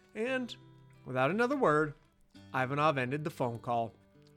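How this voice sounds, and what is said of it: Usual voice. Nothing is said of it.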